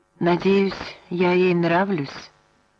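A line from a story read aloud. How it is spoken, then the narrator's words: Uncertain. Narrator (Russian): неуверенно сказала Клодия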